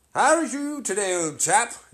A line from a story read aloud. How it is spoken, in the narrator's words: inquired the rat, cheerfully